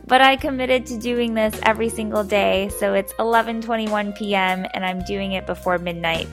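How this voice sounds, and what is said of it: Crackly, low-energy voice. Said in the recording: “apologies for the lower energy. My voice is a little bit crackly.”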